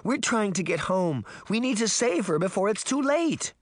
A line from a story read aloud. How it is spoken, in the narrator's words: Daphne pleaded